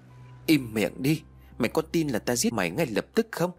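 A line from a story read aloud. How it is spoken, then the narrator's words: Loud angry shout. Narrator (Vietnamese): ông ta quát lớn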